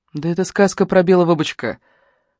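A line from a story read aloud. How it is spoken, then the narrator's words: Weary sigh. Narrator (Russian): устало вздохнула Алена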